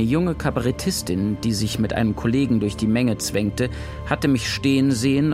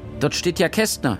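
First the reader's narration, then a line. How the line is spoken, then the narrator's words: Shrill woman's call. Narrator (German): rief eine schrille Frauenstimme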